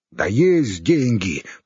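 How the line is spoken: Low booming. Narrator (Russian): прогудел Хорь

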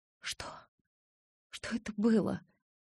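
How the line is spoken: Strained forced words. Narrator (Russian): с трудом выдавила я

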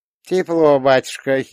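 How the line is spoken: Giggle. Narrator (Russian): хихикнул Рита

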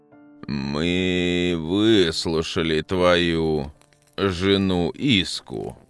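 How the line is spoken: Pompous gurgling old voice. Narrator (Russian): важно заговорил старец Мрах клокочущим голосом, будто внутри него слова кипели

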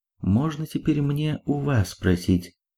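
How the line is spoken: Quiet. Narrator (Russian): тихо произнесла певица

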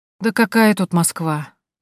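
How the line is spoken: Sighing. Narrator (Russian): вздохнула Тоня

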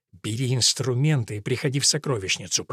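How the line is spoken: Hiss. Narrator (Russian): прошипел Годвин

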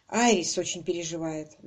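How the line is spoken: Sigh. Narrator (Russian): вздохнул

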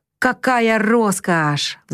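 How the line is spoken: Happy sigh. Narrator (Russian): вздохнула с абсолютно счастливым видом

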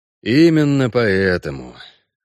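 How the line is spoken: Sigh. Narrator (Russian): вздохнул Геральт

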